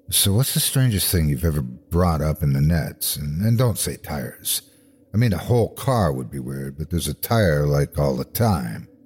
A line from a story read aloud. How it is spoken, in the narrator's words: ask in a low tone